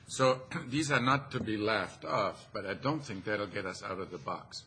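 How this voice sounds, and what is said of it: Non-native immigrant accent. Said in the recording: “as you can tell by my accent, just immigrated and got to the U.S.”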